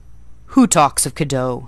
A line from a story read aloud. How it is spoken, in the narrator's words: said gruffly